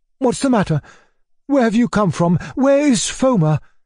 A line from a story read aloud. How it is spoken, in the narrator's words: cried my uncle, rushing up to Gavrila